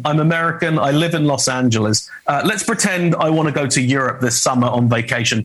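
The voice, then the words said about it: British accent. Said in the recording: “Ignore my British accent.”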